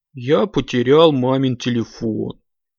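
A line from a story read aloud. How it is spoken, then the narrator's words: Sad reply. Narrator (Russian): грустно ответил тот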